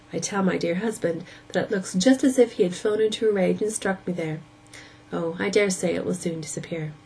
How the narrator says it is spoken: She added, laughing

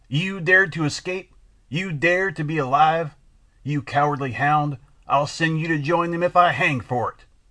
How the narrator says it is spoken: he shouted

